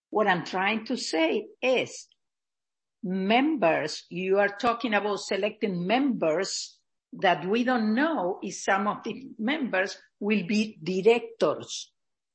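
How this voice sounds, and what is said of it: Foreign accent, sometimes hard to understand. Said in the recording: “my accent is sometimes is difficult to understand”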